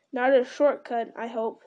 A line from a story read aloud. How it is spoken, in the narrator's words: said Pippin